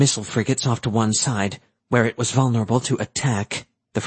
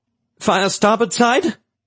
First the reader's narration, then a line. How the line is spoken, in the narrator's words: Manx asked anxiously